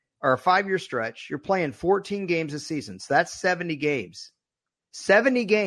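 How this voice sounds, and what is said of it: Usual voice. Nothing is said of it.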